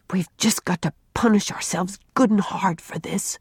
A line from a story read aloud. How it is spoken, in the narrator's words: whispered Jerry